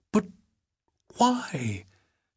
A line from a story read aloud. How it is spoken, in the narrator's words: Helen managed to gasp